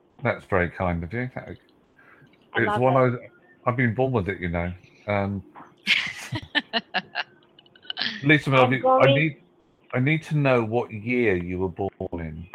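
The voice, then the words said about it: English accent. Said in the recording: “I like your English accent.”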